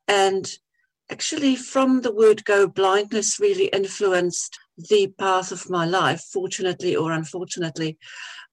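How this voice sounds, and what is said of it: Mixed Namibian-influenced accent. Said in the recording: “my accent because it's a bit mixed. I was born in Namibia”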